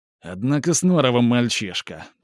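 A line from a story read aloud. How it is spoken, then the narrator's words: Grumbled. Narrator (Russian): проворчал Алексей Алексеевич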